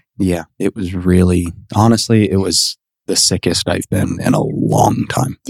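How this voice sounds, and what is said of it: Congested voice from a cold. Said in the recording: “I am recovering from a cold. So if you think I sound congested, you would be correct.”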